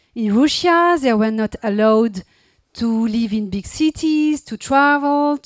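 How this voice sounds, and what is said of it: Heavy non-native English accent. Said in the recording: “my awful accent”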